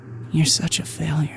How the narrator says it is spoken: you hear this older female voice just whisper

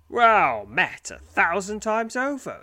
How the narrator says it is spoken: exclaims the demon, his broad grin an unsettling sight

